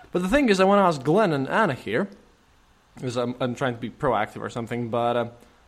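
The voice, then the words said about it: Fake thick Russian accent. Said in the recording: “my silly voice. And when I do my thick Russian accent, it's, it's fake”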